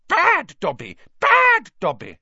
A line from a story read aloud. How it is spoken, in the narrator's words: he shouting